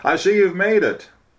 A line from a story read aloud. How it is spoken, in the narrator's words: the pastor exclaimed